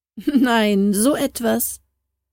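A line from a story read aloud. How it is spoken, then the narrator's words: Laughing shout. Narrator (German): rief Harald lachend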